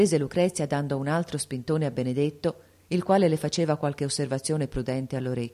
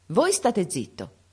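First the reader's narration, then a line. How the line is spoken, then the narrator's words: Contemptuous proud exclamation. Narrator (Italian): esclamò Lucrezia sprezzantemente, superba di fare atto d'autorità dinanzi a tutta la parentela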